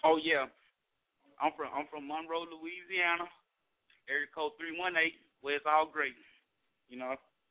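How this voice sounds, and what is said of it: Louisiana accent. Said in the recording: “I know they hear the accent”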